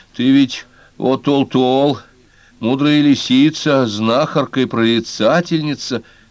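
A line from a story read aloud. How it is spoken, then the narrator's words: Strained, forced out. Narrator (Russian): выдавил из себя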